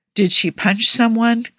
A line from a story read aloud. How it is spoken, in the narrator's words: Clint sighed